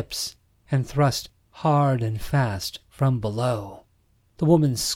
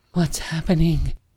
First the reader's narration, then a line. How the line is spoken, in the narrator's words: Summer cried, losing her stutter as her body continued to convulse